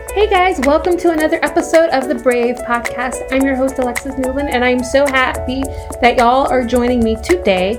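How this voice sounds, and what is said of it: Slight Southern accent. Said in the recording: “My southern accent came out a little bit in that.”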